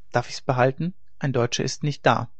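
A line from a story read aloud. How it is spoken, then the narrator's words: Boy, terse. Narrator (German): Der Junge, der von wenig Worten war, sagte nur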